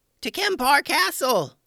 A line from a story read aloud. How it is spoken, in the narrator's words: Steve yelled